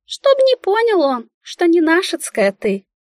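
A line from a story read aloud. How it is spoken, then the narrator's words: Businesslike squeak. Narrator (Russian): Деловитым тоном пискнула Мика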